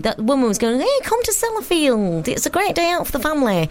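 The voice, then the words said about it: Put-on Cumbrian regional accent. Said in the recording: “I'm enjoying your accent. ... Was that your Sellafield accent? ... Is my Sellafield accent. It's slightly mutated.”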